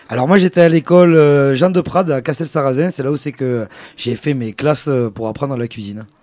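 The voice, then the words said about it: Southwestern French accent. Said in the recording (French): “tu as gardé l'accent de la région ... j'ai le bel accent du sud-ouest”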